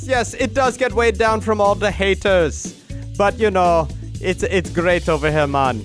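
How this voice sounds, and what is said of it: Exaggerated put-on accent. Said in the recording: “And the accent ... is the worst.”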